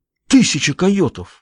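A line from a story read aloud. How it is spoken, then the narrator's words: Exclaiming. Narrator (Russian): воскликнул он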